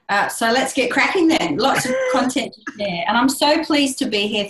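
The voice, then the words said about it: Australian accent, fast speech. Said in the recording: “my good old Australian accent ... You've got a great voice and that accent.”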